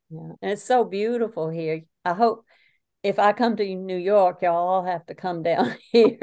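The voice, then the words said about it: Southern American accent. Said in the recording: “I was enjoying your Southern accent”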